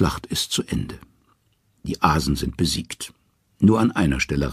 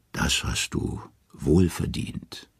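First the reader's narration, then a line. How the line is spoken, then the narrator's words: Gentle. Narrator (German): sanft sagt sie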